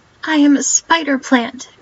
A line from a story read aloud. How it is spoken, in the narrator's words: cried indignantly